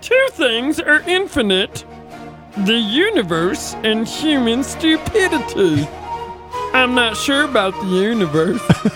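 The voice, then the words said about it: Weird put-on voice. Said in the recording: “He has a weird voice.”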